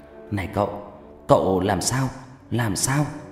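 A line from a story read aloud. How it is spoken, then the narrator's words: Panting young man. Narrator (Vietnamese): Người thanh niên thở hổn hển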